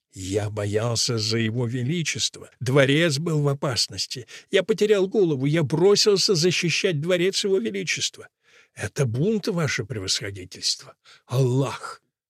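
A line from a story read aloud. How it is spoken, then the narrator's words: Whisper. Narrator (Russian): шепотом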